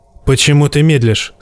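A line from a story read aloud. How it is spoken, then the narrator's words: Plain. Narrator (Russian): спросил Стир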